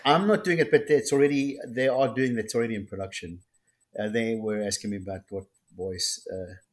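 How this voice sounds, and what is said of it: Strange accent. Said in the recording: “I have a strange accent”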